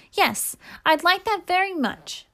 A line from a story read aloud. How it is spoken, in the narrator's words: answered Olivia eagerly